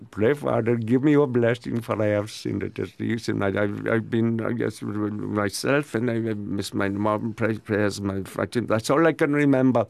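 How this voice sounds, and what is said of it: Put-on Pakistani accent. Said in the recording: “I pretended to have a Pakistani accent”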